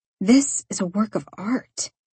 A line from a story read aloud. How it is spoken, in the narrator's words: I mumbled